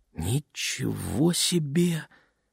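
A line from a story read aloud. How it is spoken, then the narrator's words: Barely audible whisper. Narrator (Russian): еле слышно прошептала Лене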